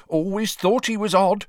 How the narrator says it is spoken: told after her fourth sherry

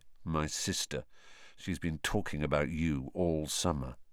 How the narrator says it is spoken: said Ron in an undertone to Harry

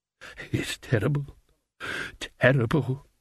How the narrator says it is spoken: muttered one of them

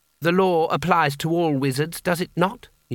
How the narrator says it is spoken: he said

